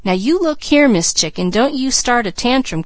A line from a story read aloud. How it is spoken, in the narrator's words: cried Mickey